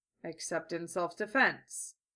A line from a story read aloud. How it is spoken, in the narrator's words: Gatto amended